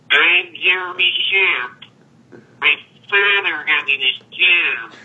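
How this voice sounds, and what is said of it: Poor imitation of another person's voice. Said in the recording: “Terrible, terrible impersonation on that one.”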